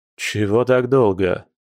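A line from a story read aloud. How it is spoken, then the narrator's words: Gloomy question. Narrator (Russian): мрачно спросил Дима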